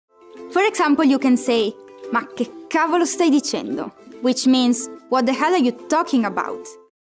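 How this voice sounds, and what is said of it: Italian accent. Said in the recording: “adorable Italian woman with a great accent”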